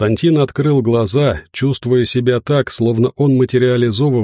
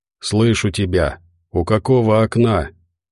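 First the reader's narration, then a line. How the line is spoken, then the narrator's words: Undertone question. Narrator (Russian): спросил он вполголоса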